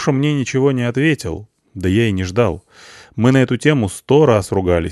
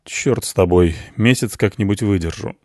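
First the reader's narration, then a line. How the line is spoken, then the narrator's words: Sighing. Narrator (Russian): вздохнул я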